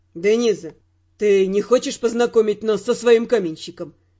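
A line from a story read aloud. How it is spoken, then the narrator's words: Mocking inquiry. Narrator (Russian): Насмешливо осведомился Родриг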